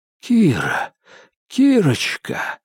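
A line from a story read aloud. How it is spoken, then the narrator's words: Whispered. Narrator (Russian): зашептал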